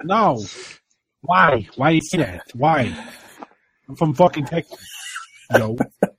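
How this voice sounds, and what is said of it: Imitates a Boston accent. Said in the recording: “he has a Boston accent”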